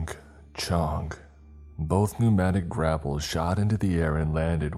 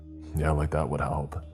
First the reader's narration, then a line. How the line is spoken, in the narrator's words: muttered